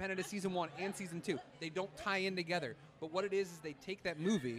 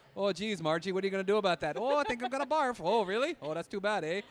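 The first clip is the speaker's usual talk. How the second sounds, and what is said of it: Put-on Wisconsin accent. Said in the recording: “that whole, like, Wisconsin accent ... I really like the way you do these accents ... Yeah, it's good.”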